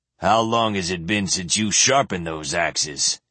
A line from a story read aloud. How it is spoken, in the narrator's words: he demanded gruffly